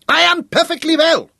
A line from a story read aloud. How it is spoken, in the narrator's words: von Schiller shouted at him